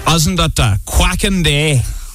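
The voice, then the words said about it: Puts on a silly accent. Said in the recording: “Was there a need for that accent?”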